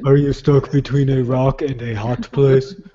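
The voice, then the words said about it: Imitates another person's voice. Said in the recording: “you automatically do it as if it's like sort of Arnold Schwarzenegger”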